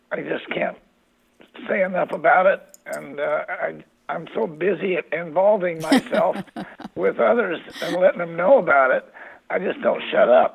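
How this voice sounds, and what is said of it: Hoarse, strained voice. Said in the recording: “lost my voice ... the lost voice”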